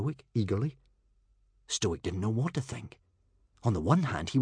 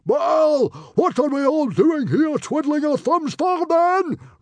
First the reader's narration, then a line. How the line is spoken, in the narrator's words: roared Stoic